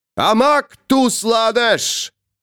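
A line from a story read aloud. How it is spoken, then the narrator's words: Shouted, trained voice. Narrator (Russian): крикнул человек хорошо поставленным голосом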